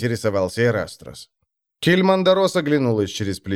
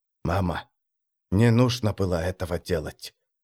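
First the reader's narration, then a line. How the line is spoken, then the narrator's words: Whispered. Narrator (Russian): шепнул он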